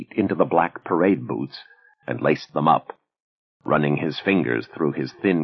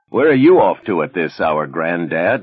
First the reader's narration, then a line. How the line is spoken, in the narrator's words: laughed a teenager